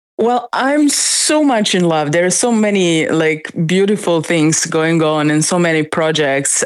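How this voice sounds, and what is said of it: Excited voice. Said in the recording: “as you probably can hear in my voice, I'm so excited about that.”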